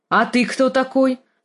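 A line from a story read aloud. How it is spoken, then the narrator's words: Commanding question. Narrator (Russian): спросил он командным тоном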